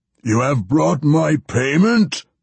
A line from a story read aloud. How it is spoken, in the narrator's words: the Baelor boomed, trying to sound imposing